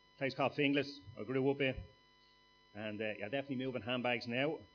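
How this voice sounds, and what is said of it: Dublin Irish accent. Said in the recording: “You might understand my accent. ... I'm from a quiet part of Dublin”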